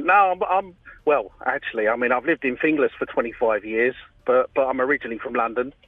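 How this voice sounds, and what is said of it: London accent. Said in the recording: “a lovely accent ... You haven't lost the accent.”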